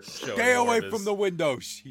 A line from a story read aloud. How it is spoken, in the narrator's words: he yells